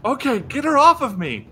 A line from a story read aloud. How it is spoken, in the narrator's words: she yells